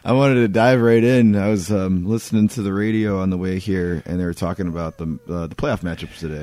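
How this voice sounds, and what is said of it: Rough, deep, sultry unwell voice. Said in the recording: “can tell by my voice, I'm not at 100% right now, but you know, now I sound like a late-night radio DJ ... It is so sultry at this point ... It's pretty bad right now.”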